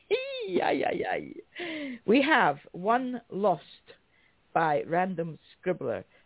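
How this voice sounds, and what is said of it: Usual voice. Nothing is said of it.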